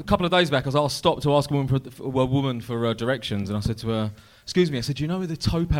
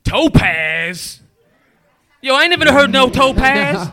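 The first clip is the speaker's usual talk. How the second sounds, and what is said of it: Impression of a black American woman. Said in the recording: “my black woman impression”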